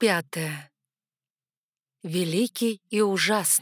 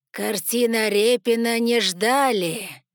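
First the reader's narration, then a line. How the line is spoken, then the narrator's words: Snide grating voice. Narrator (Russian): ехидно проскрежетал незнакомец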